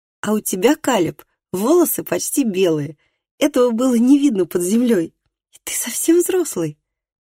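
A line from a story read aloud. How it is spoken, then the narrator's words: Laughing. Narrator (Russian): засмеялся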